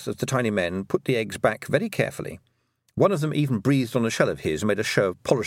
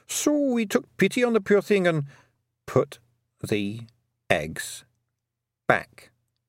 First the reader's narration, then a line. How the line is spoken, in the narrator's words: said Tiffany slowly